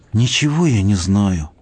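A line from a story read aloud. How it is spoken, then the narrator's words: Glum voice. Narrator (Russian): сказала унылым голосом Камка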